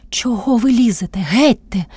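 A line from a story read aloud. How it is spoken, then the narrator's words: Loud indignant cry. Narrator (Ukrainian): скрикнувши вона на всю хату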